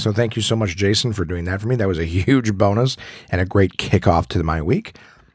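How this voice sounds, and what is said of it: Altered voice, not fully recovered. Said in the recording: “As you can hear in my voice, I'm doing much better, but still not fully recovered. ... has not been my actual voice. It's been some sort of derivative, a filtered version of it”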